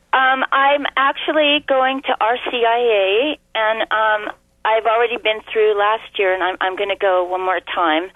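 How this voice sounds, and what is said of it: Hoarse, congested voice. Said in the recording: “Excuse my voice. I've got a really bad cold.”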